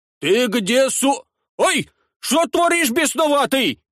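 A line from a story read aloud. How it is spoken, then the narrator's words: Shouting priest. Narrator (Russian): кричал поп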